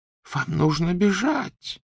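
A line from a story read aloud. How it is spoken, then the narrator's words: Whispered. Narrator (Russian): прошептала профессор МакГонагал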